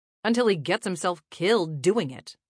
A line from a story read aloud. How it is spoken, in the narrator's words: Donovan snapped back